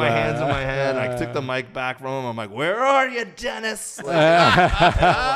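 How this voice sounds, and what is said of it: Usual voice. Nothing is said of it.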